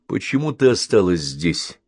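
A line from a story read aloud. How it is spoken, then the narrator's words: Plain. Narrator (Russian): спросил Бен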